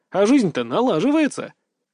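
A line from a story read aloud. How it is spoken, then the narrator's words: Snorting. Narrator (Russian): фыркнул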